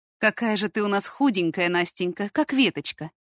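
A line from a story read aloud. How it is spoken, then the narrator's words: Sighing. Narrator (Russian): вздохнула женщина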